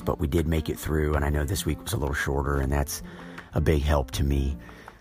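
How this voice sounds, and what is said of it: Raspy voice, throat clearing. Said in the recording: “I'm sorry for the clearing of my throat and the raspy voice”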